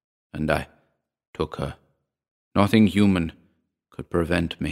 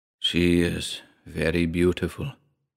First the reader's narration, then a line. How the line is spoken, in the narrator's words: he murmured